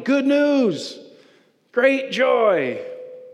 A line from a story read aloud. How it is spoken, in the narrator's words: the angels started shouting